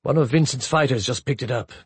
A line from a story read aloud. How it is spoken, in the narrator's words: Bichet said grimly